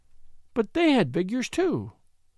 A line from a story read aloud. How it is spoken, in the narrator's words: she cried in perplexity